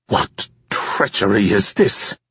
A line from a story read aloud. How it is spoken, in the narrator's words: Drem sputtered